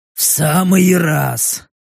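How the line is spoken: Hoarse rasp. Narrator (Russian): прохрипел Рек

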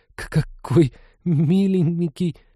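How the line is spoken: Strained, forced out. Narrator (Russian): с трудом выдавила девушка

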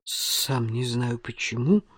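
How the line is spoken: Muttering. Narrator (Russian): пробормотал Эсме

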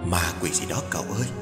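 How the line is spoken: Soft old woman's voice. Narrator (Vietnamese): Một bà cụ khẽ bảo

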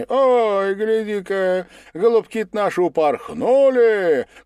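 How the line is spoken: Guest shouting. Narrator (Russian): крикнул кто-то из гостей

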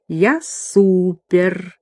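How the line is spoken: Purring. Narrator (Russian): она промурлыкала

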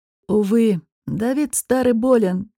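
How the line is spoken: Heavy sigh. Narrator (Russian): тяжело вздохнул Дестон

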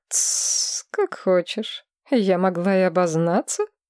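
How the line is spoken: Laughing. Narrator (Russian): рассмеялась Мора Девир

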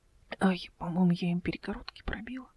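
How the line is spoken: Whisper. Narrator (Russian): прошептала она

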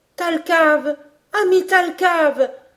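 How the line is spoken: Exclamation. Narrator (French): s'écria Robert

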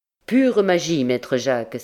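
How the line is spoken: Exclaiming. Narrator (French): s'écria-t-il

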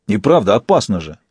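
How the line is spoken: Barking. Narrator (Russian): рявкнул Фис

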